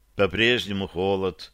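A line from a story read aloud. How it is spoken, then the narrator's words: Seemingly sad statement. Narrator (Russian): как бы печально констатировала Вероника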